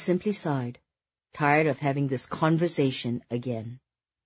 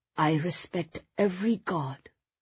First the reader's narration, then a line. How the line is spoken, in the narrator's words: she replied softly